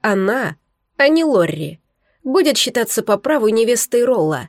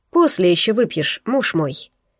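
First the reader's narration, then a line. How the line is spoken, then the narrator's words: Soft, gentle. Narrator (Russian): мягко сказала она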